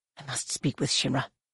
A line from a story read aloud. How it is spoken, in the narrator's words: Gnome Anur whispered fiercely